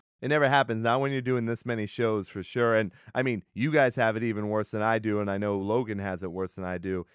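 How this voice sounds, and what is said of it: Sick-sounding, unusual voice. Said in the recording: “I am getting sick right now. My voice is not normally like this.”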